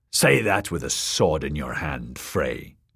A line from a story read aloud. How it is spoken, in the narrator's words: the small man snarled